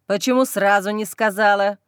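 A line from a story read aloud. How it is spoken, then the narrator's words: Curt, abrupt. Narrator (Russian): Бросает отрывисто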